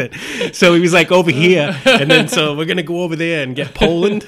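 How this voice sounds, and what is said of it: Put-on Boston accent. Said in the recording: “Did you hear my Boston accent come out there ... I'm going to tell this whole thing with a Massachusetts accent.”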